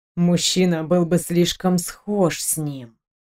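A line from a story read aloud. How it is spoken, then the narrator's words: Quiet supposition. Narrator (Russian): тихо предположил Мик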